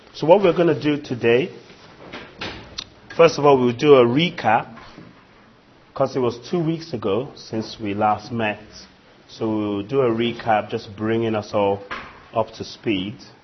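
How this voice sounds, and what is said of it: Voice affected by a cold. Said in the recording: “excuse my voice... Got a bit of a cold.”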